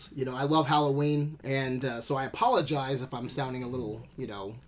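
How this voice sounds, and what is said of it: Hoarse, raspy, fading voice. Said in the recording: “I'm losing my voice tonight ... you sound shitty ... Raspy.”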